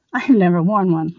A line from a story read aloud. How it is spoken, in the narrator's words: laughed Victoria